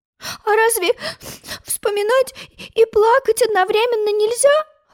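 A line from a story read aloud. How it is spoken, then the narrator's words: Sobbing question. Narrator (Russian): всхлипывая, спросила Алиса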